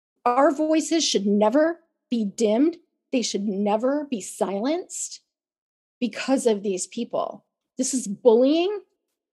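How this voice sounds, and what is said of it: Raised, angry voice. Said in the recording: “I know I'm like raising my voice, but I was so angry. Like, and you can tell I'm still angry.”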